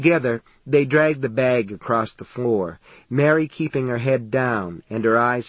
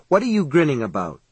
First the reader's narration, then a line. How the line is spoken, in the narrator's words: she asked him sharply